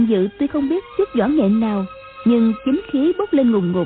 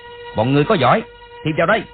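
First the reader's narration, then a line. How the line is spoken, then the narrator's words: Loud shout. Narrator (Vietnamese): quát lớn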